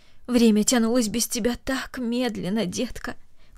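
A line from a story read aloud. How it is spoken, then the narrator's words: Tender speech. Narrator (Russian): добавила она нежно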